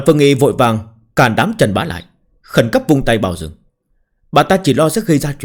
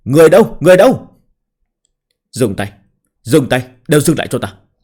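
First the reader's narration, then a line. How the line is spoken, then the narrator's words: Shocked loud shout. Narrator (Vietnamese): Quản Thanh Nhai cả kinh ... lớn tiếng quát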